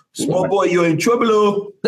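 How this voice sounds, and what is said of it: Put-on West African accent. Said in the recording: “I can do like a West African ... That sounds kind of Somali-ish.”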